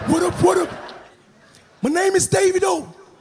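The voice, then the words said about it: Put-on American accent. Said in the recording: “Anytime they do Yankee, they get foreign accent all of a sudden.”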